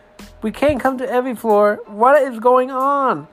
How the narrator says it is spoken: Saber shouted into our walkie

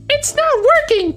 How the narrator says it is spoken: cried Amy

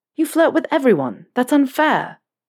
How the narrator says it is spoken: Harry exclaimed

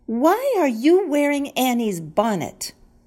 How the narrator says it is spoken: Lisa asked indignantly

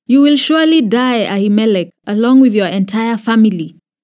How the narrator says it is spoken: the king shouted

